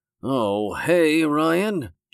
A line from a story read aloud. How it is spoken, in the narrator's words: Joseph said in an even more somber tone